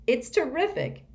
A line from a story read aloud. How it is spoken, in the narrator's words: he cried